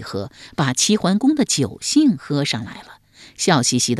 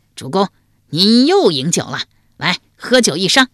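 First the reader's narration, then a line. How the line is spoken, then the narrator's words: Loud call. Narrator (Chinese): 长之屋高声叫道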